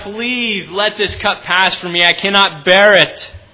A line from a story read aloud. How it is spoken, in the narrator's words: He cried out to God